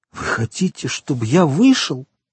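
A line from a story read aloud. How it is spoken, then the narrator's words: Sorrowful exclamation. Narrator (Russian): горестно воскликнул Морель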